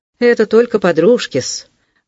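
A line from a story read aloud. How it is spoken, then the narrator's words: Brisk, suddenly lively. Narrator (Russian): бодро проговорил вдруг Павел Павлович, совершенно оживившись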